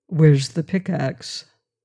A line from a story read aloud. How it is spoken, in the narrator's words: said Mansell quietly